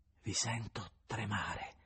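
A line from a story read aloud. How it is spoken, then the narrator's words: Soft, sweet, indefinable accent. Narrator (Italian): in atto di somma dolcezza, mentre diceva piano, con un accento indefinibile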